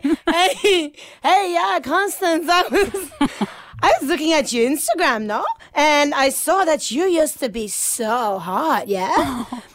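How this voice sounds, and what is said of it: Put-on Dutch accent. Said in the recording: “he's got an accent, and I can't physically say anything that he says without putting it on. So, because he's from Amsterdam.”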